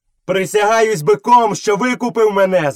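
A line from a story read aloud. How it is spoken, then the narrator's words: Shouted. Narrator (Ukrainian): закричав Мауглі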